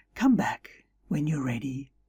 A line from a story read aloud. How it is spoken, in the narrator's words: with a sigh, she said